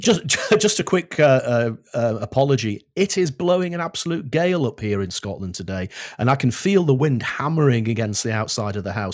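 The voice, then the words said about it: English accent. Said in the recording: “I'm an Englishman in Scotland with an English accent”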